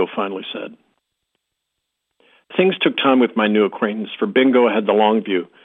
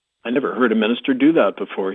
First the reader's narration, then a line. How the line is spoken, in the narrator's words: he said